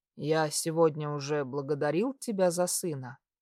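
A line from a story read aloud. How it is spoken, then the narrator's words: Tender question. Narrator (Russian): нежно спросил я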